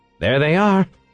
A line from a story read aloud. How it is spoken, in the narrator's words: he exclaimed